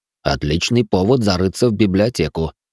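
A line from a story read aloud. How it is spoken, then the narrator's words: Snorting. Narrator (Russian): хмыкнул маг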